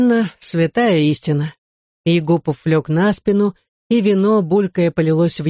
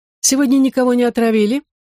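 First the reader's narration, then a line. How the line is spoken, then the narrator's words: Feigned innocent question. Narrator (Russian): Деланно невинным голосом осведомился Егупов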